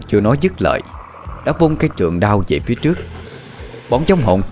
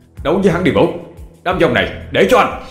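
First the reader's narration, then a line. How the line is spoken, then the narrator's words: Shouting. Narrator (Vietnamese): Anh thét lên với Vũ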